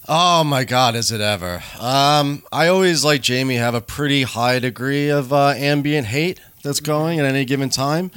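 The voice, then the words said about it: Very loud phone voice. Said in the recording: “You're using your phone voice right now. ... Phone voice is very loud.”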